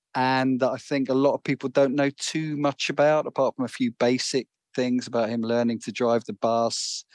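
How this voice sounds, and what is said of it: London English accent. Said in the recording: “I'm from London. You can probably tell from my accent.”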